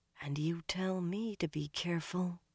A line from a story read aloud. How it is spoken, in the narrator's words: Almost under her breath, Elaine murmured